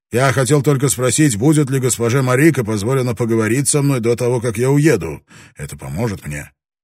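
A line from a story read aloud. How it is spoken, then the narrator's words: Plain question. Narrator (Russian): Она спросила Таранагу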